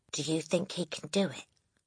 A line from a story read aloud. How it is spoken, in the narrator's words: she whispered to Lavender